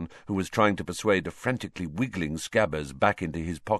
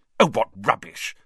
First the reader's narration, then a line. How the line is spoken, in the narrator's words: said Hermione impatiently